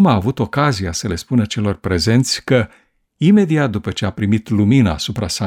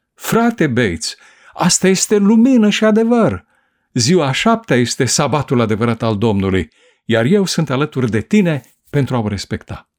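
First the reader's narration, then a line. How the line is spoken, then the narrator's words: Excited exclamation. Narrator (Romanian): Edson a exclamat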